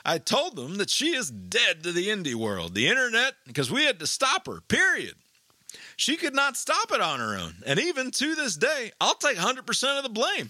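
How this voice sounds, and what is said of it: Put-on Tennessee accent. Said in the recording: “Her husband, obviously, is a long-haul truck driver, also from Tennessee. Forgive the accent here, but I've got to do it.”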